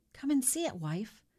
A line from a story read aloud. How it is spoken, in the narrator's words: said, his voice breaking